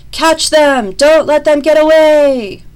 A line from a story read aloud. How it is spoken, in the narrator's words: Furious voices shouted